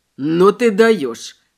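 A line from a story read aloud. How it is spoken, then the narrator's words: Snorted. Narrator (Russian): фыркнул Мэй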